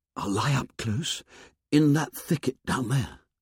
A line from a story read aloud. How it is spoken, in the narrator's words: he whispered